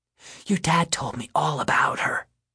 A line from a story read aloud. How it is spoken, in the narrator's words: she whispers